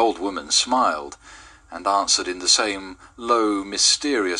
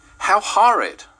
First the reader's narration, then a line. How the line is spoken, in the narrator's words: cried Mrs